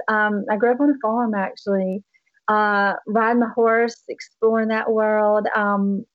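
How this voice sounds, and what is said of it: Slight Southern accent. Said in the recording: “obviously they're very Southern still. You can kind of hear some of the accent still left in my voice.”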